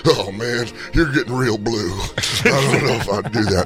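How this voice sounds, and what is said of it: Imitates another person's voice. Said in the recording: “my Dan Saint Germain impression.”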